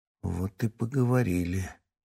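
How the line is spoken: Quiet. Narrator (Russian): тихо произнес Марат

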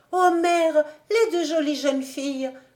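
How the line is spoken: Exclaimed. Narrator (French): s'écria Emmanuel

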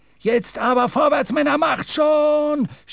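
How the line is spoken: Shouting, sputtering. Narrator (German): schrie Stubb, blubbernd

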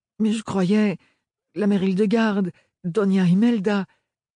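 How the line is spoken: Stammering. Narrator (French): balbutia Ophélie

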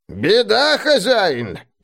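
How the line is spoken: Creaky old voice. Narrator (Russian): Проскрипел старый ланскнехт

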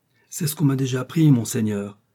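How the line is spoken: Exclaimed. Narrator (French): s'écria Bonacieux

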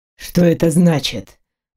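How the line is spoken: Grim, guttural velvety voice. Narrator (Russian): мрачно спросил мужчина своим чуть гортанным, бархатным голосом

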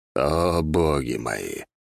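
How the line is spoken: Groan. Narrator (Russian): простонал Мор

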